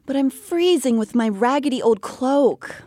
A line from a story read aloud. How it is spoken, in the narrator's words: Elain pleaded